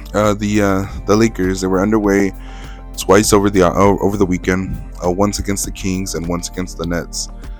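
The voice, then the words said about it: Voice giving out, strained. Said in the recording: “I'm starting to lose my voice”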